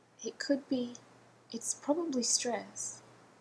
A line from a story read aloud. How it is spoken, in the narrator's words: said quietly